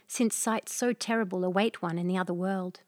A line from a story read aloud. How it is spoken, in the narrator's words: murmured